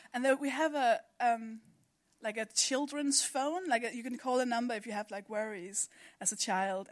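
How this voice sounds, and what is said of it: Danish accent. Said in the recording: “I'm from Denmark, by the way. That's the accent.”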